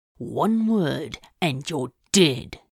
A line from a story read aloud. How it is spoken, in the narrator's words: Crowley growled